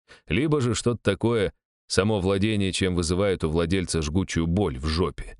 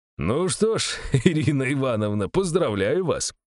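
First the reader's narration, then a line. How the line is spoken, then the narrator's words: Short laugh. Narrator (Russian): хохотнул я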